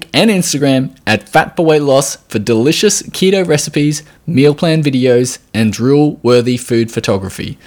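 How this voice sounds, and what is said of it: Australian accent. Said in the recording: “your accent, and she wants to move to Australia ... with the accent”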